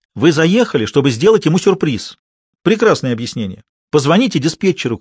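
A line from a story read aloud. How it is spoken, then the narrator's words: Shouted. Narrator (Russian): крикнула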